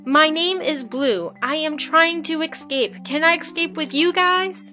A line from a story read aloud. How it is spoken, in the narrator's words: It shouted